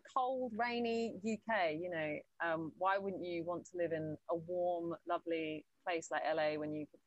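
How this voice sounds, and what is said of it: British accent. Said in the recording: “I think at heart I'm just very British. And even my accent in the whole year I was there... there wasn't a bit of my accent that changed”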